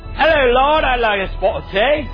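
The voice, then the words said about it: Poor imitation of English accent. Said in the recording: “Are we all going to talk like this ... I don't even know if that's an English accent. ... that is terrible. That doesn't sound like us.”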